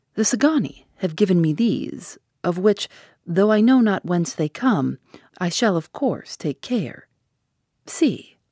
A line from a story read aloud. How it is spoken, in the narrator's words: said in his smoothest voice